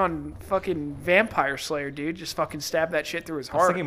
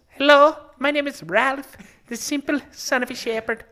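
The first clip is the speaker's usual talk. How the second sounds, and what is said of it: Imitates a character's voice. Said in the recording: “I do a pretty good impression. ... A really good Ralph. ... Oh, that's good.”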